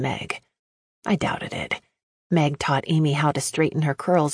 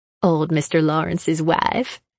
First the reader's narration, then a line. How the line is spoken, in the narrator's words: she laughed